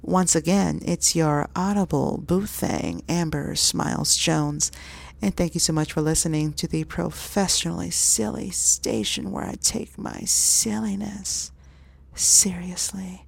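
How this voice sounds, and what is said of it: Sultry phone-sex voice. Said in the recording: “I'm going to be sexy. Watch this. I'm going to give phone sex voice”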